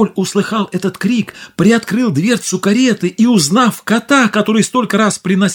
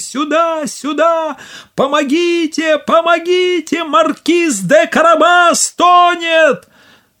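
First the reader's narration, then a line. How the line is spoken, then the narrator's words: Shouting at full voice, cat. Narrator (Russian): Кот закричал, что было мочи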